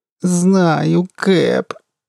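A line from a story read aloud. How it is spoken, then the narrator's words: Helpless moan. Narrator (Russian): беспомощно простонала Джая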